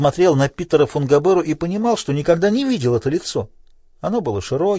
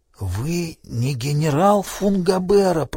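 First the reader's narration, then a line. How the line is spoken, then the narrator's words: Whisper. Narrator (Russian): прошептал Крейг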